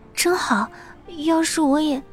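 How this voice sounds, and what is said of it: Very quiet, faint voice. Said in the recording (Chinese): “小声地说 ... 的声音像是蚊子一样”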